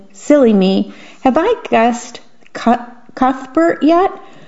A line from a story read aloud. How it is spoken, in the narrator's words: relaxed and let out a haughty laugh